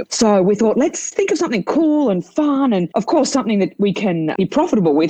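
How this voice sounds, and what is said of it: Australian accent. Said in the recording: “You can tell by my accent, I'm from Australia”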